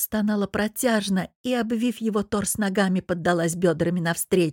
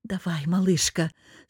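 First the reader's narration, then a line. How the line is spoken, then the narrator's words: Growled. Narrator (Russian): зарычал Богдан и выдохнул прямо в губы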